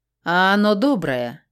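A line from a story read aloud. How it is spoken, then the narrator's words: Snort. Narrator (Russian): хмыкнул он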